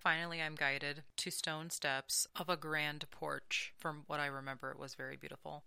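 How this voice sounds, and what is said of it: Monotone hypnotic reading voice. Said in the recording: “how hypnotic is my voice tonight? It's super fucking monotone.”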